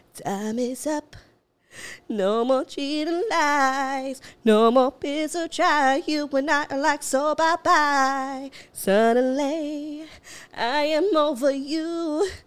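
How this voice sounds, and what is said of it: Sings imitating another person's voice. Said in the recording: “My voice is made for Britney Spears. Like, see? I could sound like Britney.”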